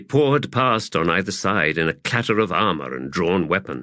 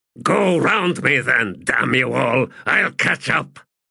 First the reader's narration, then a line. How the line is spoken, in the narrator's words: Spax snarled